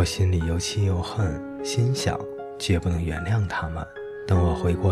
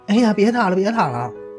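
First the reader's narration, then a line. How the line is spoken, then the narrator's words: Anxious, slurred shouting. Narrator (Chinese): 小新舅舅急着跺脚，口齿不清地喊着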